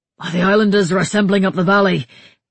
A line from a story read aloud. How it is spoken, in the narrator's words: he gasped, holding his side